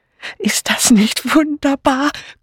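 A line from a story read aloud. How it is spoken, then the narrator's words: Breathless female voice. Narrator (German): keuchte eine weibliche Stimme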